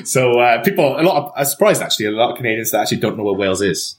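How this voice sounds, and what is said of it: Welsh accent. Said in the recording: “someone's going to get wind of your accent. You must be from England. Actually, no, I'm from Wales.”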